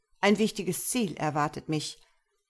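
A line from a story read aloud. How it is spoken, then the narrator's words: Calling out. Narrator (German): rief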